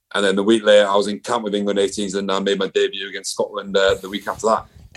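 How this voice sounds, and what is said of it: English accent. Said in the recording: “I'm English, like you can tell by my accent. I ain't Scottish”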